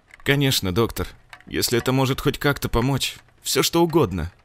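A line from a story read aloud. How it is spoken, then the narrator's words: Trembling voice. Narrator (Russian): дрожащим голосом ответила Ольга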